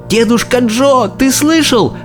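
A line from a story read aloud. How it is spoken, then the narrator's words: Shout. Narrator (Russian): закричал Чарли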